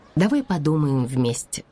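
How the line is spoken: Calm mother's reply. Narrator (Russian): спокойно ответила мама

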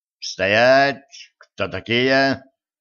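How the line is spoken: Stern demanding question. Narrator (Russian): грозно спросил лейтенант

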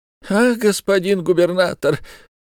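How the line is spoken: Fawning pleading tone. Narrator (Russian): заговорил Исаак еще более заискивающим, еще более умоляющим тоном

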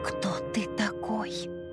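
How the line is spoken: Hoarse question. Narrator (Russian): сипло спросила

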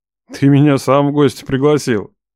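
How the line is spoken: Snorting chuckle. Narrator (Russian): хмыкнул

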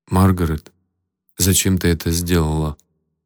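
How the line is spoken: Flat colorless question. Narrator (Russian): бесцветным голосом спросил Майк

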